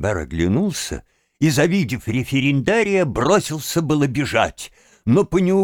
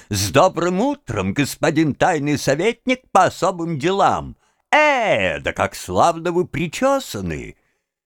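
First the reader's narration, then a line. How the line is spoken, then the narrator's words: Shouted loudly. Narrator (Russian): референдарий громко закричал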